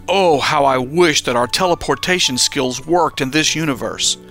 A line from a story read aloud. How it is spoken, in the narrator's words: Daniel sharply lamented